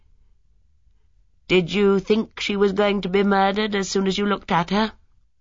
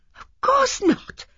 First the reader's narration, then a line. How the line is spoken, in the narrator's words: exclaimed Miss Marple